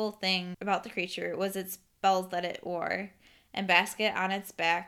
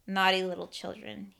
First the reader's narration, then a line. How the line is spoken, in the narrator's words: said in a cold, raspy voice